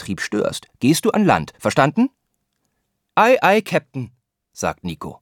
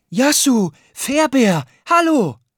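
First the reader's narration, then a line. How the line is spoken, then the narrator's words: Calling out. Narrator (German): ruft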